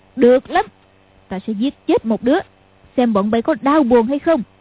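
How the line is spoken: Angry shout. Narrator (Vietnamese): Lý Mặc Sầu quát lên

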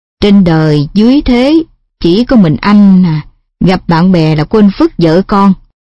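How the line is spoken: Sighing complaint. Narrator (Vietnamese): má bằng thở dài

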